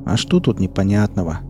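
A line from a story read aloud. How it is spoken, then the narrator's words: Sighing. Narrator (Russian): вздохнул мытарь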